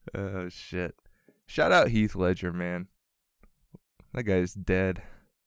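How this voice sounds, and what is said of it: Usual voice. Nothing is said of it.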